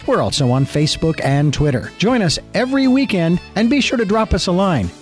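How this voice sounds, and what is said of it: Beautiful, polished radio voice. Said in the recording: “You got a beautiful voice. You got a great, great radio voice”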